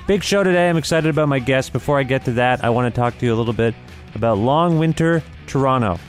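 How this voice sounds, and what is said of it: Sick voice, slightly recovering. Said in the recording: “Thank you for your well wishes about my illness... I bet you kind of hear it in my voice. I sound a little bit better. I'm never going to sound great, but I sound okay. I still have a thing.”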